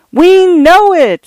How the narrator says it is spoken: screamed the studio visitors, heated by coke and awe

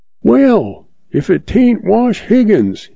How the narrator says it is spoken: hollers

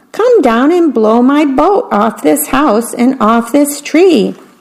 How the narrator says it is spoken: shouted the mouse

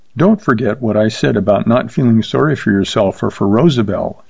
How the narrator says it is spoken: said quietly

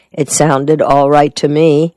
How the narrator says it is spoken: Lunk said in a flat, emotionless voice of a man who isn't trying to convince anyone

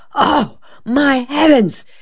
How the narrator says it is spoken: Della Street exclaimed, suddenly remembering that she had habitually left the kitchen window open for a few inches for ventilation

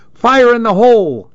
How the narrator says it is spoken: I hollered

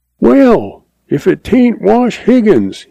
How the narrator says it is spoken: he hollers

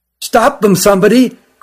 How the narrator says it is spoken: cried the one who found them

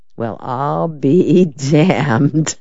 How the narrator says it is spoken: Perry Mason said softly

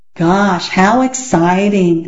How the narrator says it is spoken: said Peter in a very unexcited voice

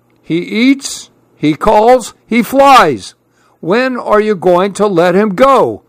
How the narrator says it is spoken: grumbled Grandpa

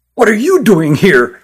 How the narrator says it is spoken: asked Christopher angrily

